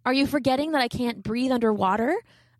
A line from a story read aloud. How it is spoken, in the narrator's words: I asked